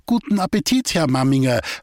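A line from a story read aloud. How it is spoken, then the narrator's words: Call. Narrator (German): rief ihm Goletta zu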